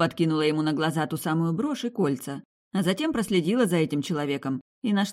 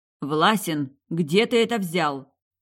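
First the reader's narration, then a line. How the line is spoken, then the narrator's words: Menacing question. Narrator (Russian): спросила грозно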